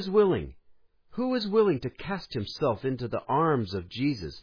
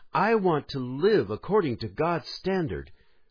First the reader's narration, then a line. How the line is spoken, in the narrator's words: to exclaim